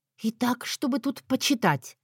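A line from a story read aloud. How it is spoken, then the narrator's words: Whispered. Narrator (Russian): прошептала я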